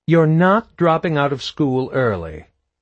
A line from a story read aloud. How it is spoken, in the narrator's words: Mom said firmly